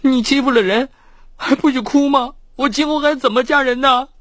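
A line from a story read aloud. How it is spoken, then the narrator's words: Feigned coquettish tone. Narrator (Chinese): 罗小雪 她停止了哭泣 故作娇嗔的说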